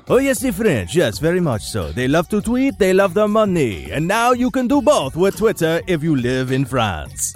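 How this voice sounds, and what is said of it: Terrible put-on French accent. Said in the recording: “my terrible French accent”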